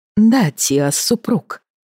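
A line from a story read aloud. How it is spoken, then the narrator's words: Sighing female voice. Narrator (Russian): вздохнула Дина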